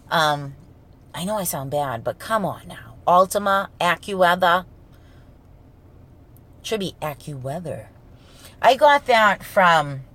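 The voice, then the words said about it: Thick gravelly Boston accent. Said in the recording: “because of my accent... it does sound like I goggle with gravel and have a pound of macaroni in my mouth when I talk... Boston accent... Goggles with gravel, pound of macaroni in the mouth”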